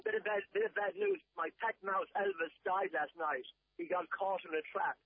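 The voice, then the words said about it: Very thick Irish accent. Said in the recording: “It was a very thick accent, wasn't it? The Irishman”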